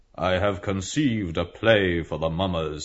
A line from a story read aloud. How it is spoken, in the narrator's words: he said solemnly